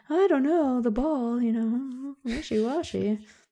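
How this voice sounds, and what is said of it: Vague put-on accent. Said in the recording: “I don't know what accent I'm doing when I do that”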